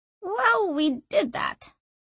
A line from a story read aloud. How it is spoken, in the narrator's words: croaked Sanchia